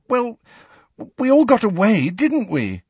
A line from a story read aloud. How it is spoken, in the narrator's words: said Cho pleadingly